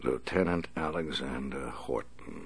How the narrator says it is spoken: the Batman said softly

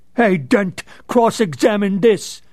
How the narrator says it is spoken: Maroney had shouted, standing in the witness box

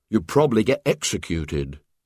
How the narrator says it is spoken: said Douglas

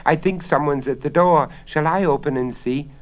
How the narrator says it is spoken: Bella cried

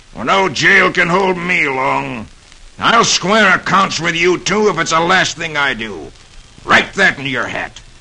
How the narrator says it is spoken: Baldwin he snarls

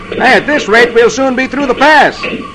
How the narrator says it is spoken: Ken says cheerfully

